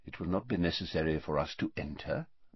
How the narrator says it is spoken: muttered Dumbledore

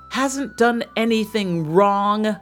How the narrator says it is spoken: shrieked the foster brother

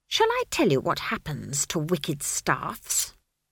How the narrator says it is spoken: she hissed

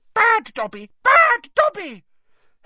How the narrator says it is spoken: squealing

